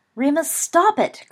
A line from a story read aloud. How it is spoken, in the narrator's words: cried Lily